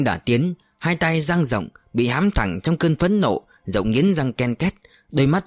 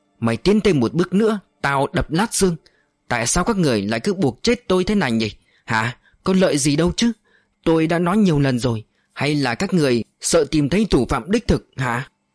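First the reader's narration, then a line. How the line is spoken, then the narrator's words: Harsh growl. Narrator (Vietnamese): Chàng gằn giọng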